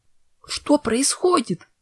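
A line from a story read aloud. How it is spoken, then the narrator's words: Frightened exclamation. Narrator (Russian): испуганно воскликнула Винил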